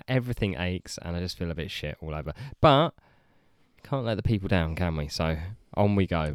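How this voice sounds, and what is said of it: Voice sounds sick. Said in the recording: “I am sick, and you can probably tell from my voice”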